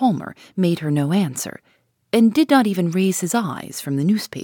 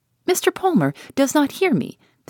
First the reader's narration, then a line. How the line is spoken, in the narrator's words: said she, laughing